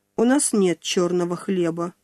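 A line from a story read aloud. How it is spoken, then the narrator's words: Dry. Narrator (Russian): сухо сказала она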